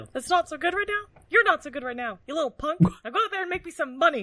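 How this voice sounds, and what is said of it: Poor Mickey Mouse voice impression. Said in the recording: “does a way better Mickey Mouse than what she's doing right now ... she's doing it poorly”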